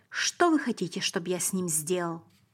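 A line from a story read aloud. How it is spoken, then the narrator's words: Agitated voice. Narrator (Russian): сказал Пилат взволнованным голосом и спросил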